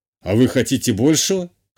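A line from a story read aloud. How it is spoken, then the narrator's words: Smirking grunt. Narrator (Russian): хмыкнул канцлер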